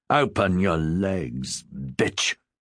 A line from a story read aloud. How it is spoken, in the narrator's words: He hissed